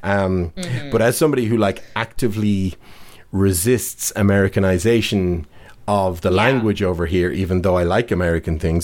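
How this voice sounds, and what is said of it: Dublin Irish accent. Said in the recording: “I still have quite a Dublin accent”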